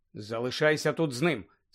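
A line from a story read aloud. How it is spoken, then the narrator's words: Plain. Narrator (Ukrainian): сказав Гаррі Крумові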